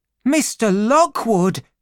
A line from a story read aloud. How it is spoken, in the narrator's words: she cried